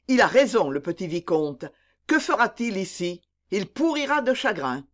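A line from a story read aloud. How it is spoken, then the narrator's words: Exclaimed. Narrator (French): s'écria le duc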